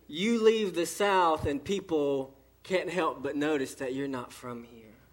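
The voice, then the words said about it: Southern US accent. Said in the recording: “the South, you open your mouth... People say, you're not from around here... when I open my mouth and this accent comes out”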